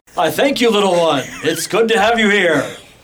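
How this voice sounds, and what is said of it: Booming cartoonish superhero character voice. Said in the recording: “he sounds like a cereal box superhero ... Like Captain Frosted Flakes ... Captain Cliche ... the voice of a true orc warrior”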